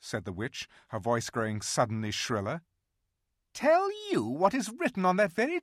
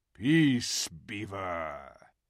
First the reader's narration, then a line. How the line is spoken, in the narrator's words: said Aslan with a very low growl